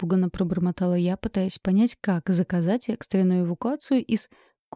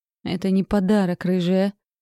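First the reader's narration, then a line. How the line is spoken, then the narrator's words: Strained dragon growl. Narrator (Russian): надрывно рыкнул дракон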